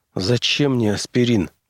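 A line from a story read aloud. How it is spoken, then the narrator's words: Mutter. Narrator (Russian): пробормотал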